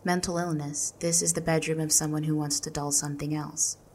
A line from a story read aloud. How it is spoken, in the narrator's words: said, softly, gently, firmly